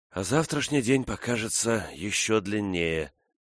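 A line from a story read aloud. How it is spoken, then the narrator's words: Tired. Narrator (Russian): сказала она устало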